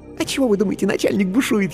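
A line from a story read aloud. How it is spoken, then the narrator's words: Giggling whisper. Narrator (Russian): хихикнув, шепнула она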